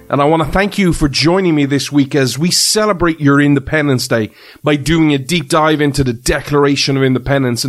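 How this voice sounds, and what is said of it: Irish accent. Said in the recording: “This Irish Man ... you come for the accent”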